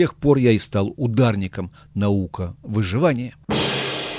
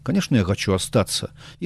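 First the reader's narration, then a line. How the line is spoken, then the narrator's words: Very quiet, cautious reply. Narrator (Russian): На боку у него висел 350-й магнум, так что я ему тихо-тихо ответил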